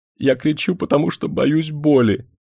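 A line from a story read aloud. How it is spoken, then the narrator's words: Sobbing. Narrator (Russian): рыдая, сказал привязанный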